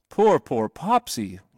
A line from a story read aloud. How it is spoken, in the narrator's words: he cried